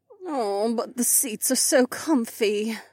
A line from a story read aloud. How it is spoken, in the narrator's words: Kat groaned